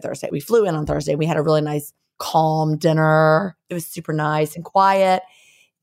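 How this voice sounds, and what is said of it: Scratchy, hoarse voice. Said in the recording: “it was so loud everywhere, so I had to talk really loud, and that's why my voice is scratchy”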